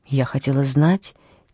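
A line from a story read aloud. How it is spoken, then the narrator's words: Quiet answer. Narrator (Russian): тихо ответила Анни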